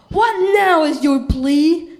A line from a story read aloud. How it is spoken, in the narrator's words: Herod roared